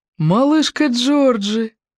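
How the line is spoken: Strained, muffled laugh. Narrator (Russian): Малком засмеялся, но смех его прозвучал сдавленно и неестественно глухо

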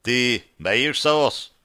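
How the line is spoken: Plain. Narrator (Russian): спросил бородач

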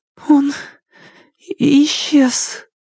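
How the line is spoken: Trembling voice. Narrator (Russian): она дрожащим голосом ответила

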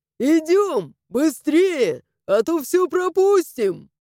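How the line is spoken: Loud yelling while running. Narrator (Russian): громко вопя по дороге

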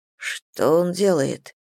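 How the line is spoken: Whisper. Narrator (Russian): прошептал Миша

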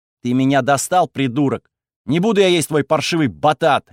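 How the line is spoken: Barked. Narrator (Russian): рявкнула Афена

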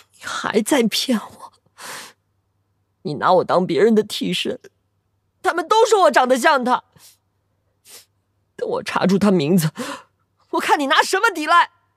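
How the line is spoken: Through gritted teeth. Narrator (Chinese): 严君玉咬牙

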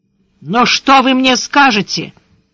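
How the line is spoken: Ringing voice, blurted. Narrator (Russian): звенящим голосом выпалила Яна

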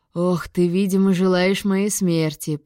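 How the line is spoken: Moan. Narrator (Russian): простонал Гектор

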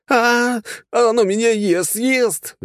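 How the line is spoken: Howled, fat young man. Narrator (Russian): взвыл какой-то толстый парень

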